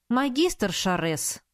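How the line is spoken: Indignant exclamation. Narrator (Russian): воскликнула я возмущенно

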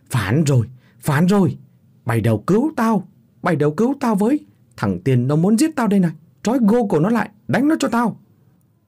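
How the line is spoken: Shrieking like a stuck pig. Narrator (Vietnamese): Miệng lão thét lên như heo bị thọc huyết

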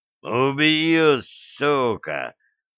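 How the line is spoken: Growling. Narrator (Russian): прорычал Греф

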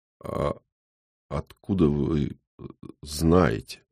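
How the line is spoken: Weakening voice. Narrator (Russian): слабеющим голосом спрашиваю я

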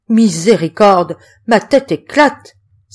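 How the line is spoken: Exclaiming. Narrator (French): s'écria-t-il

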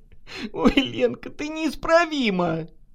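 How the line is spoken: Laughing. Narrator (Russian): засмеялась Наташа

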